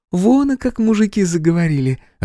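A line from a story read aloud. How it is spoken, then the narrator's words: Laughing. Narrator (Russian): рассмеялась Хэти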